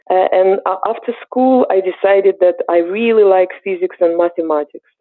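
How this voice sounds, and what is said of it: Eastern European accent. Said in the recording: “As you can hear from my accent, I'm originally from Eastern Europe. I'm Ukrainian.”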